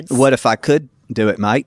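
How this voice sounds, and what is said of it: Put-on Australian accent. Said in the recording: “I can do a fabulous Aussie accent ... See, that's pretty good.”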